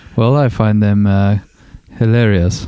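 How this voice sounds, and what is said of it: Attempted Jeeves butler accent. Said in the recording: “That's an attempt at a Jeeves accent.”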